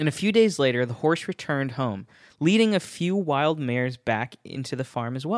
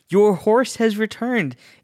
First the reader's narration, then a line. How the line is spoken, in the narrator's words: The neighbors shouted